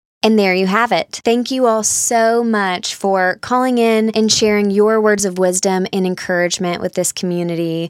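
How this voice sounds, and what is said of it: Southern American accent. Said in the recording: “your sweet little Southern accent”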